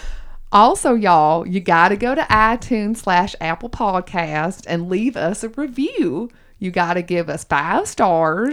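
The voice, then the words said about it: Put-on Southern US accent. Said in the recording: “I'm going to do a whole episode in my Southern accent.”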